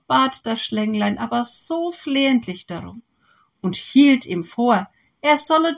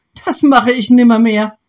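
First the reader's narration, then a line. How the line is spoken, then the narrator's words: Farmer calling out. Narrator (German): rief der Bauer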